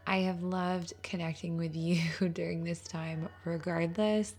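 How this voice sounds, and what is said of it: Strained voice from illness. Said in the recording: “I'm not 100% feeling better, so my voice is still not great.”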